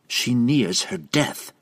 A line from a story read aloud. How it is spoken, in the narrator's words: Triel snapped in reply